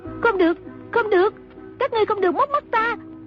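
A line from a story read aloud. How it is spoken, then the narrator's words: Shout. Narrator (Vietnamese): Trung Linh hét lên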